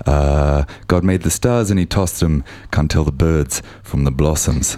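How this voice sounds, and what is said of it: Radio DJ voice. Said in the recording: “I'm doing my DJ voice.”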